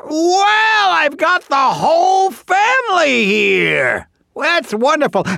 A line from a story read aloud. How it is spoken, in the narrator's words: the tree shouted out